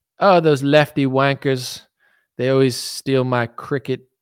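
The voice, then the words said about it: A deliberately poor accent impression. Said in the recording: “That was a terrible impression.”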